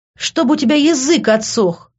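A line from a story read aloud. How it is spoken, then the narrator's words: Angry shout. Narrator (Russian): закричал я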